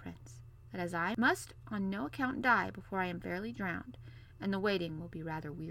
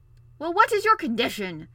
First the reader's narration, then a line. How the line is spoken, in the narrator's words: growled the king